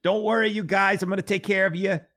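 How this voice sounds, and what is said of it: Poor imitation of another person's voice. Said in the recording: “Bernie Sanders ... I know that's a terrible impersonation”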